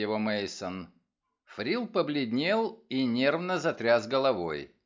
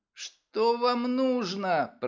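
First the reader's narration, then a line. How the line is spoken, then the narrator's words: Timid babbling. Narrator (Russian): пролепетал Фрил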